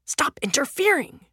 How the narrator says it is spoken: the younger man hisses

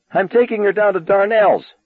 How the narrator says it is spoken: Arnie yelled

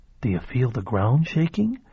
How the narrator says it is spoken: whispering ominously to his new wife

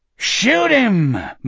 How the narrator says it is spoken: Morgan bellowed

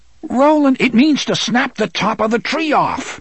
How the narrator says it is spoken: roared at her

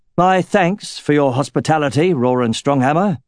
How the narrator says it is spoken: he said, raising his voice so that his entire troop could hear

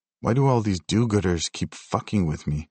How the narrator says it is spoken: I muttered to myself

